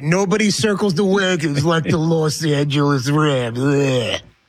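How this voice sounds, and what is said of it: Imitates another person's voice. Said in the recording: “You do it better than me... You're much better Chris Berman in person... I'm trying to do the impersonation.”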